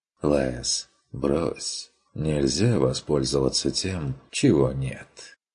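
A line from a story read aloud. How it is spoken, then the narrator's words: Objecting. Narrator (Russian): возразил фон Вегерхоф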